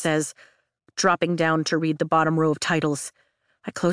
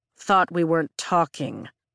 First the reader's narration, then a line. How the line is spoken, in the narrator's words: Zayden drawls